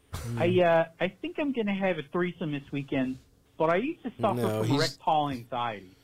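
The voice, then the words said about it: Poor fake Baltimore accent. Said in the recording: “your Baltimore accent sucks ... a fucking substandard Baltimore accent”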